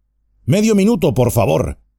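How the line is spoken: Man shouting. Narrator (Spanish): gritó el hombre

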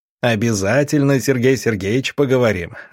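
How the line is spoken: Loud laughter. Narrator (Russian): расхохотался доктор

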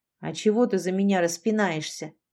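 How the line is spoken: Displeased grumble. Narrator (Russian): недовольно буркнула Лолита

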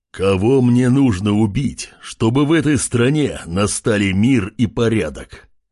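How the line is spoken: Menacing. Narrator (Russian): Грозно произнес Артем

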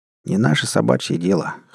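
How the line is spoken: Snorting remark. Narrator (Russian): хмыкнул Савелий

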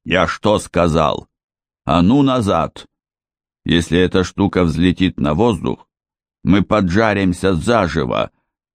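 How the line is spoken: Growling. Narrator (Russian): прорычал тот, что выбрался первым

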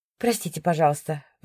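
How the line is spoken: Sighing into phone. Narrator (Russian): вздохнула я в трубку

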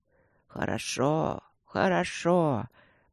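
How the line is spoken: Muttering old man. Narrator (Russian): пробормотал старик

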